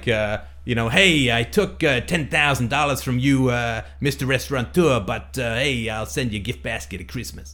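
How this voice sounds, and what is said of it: Very bad put-on accent. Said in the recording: “Possibly the worst accent ever done.”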